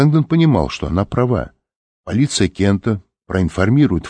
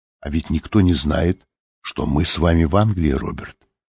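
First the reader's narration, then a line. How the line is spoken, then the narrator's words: Quiet remark. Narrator (Russian): София тихо заметила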